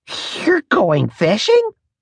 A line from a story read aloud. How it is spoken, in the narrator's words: I sputtered, astonished